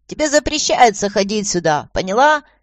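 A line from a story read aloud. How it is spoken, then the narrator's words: Loud cackling. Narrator (Russian): громко загоготал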